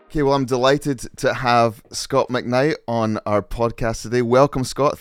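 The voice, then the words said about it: Scottish accent. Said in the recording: “it's nice to hear a Scottish accent. You sound like my grandpa, who was from Fife.”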